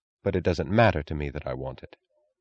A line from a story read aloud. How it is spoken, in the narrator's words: answered coldly